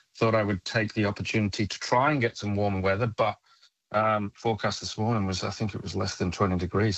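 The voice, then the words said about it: North Welsh accent. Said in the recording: “I detect from your accent you might have some origins in that part of the world? ... I'm from North Wales myself”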